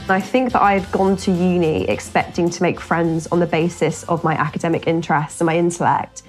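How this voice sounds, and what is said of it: Essex English accent. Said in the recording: “you sound really Essexy, you sound really chavvy”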